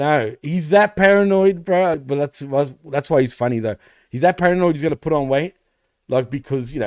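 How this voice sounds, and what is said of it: Usual voice. Nothing is said of it.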